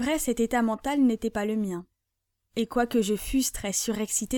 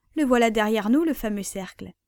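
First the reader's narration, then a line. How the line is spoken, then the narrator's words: Exclaimed. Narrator (French): s'exclama-t-il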